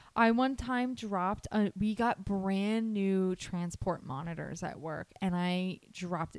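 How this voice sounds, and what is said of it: Usual voice. Nothing is said of it.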